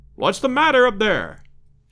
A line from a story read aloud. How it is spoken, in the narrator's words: shouted Roxton from below